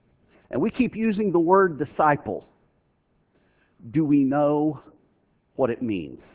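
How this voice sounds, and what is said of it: Usual voice. Nothing is said of it.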